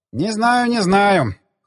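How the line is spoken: Skeptical hmph. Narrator (Russian): хмыкнул он

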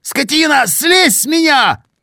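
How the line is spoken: Shout. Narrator (Russian): кричал Сеня, отбиваясь от придавившей его к земле твари

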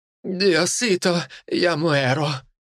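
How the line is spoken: Moaning. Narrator (Russian): простонала Амерта

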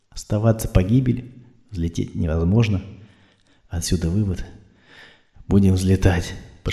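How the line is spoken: Whispered. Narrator (Russian): прошептала Ольга

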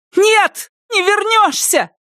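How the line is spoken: Shouted. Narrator (Russian): крикнула она

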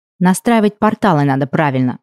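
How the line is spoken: Restrained snap. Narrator (Russian): огрызнулась я, сдерживая желание тут же отправить его обратно тем же путем

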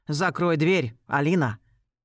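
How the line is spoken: Stern commanding voice. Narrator (Russian): Голос звучит грозно и безапелляционно

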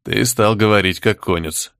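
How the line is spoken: Wry snort. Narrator (Russian): хмыкнул в ответ старший наемник

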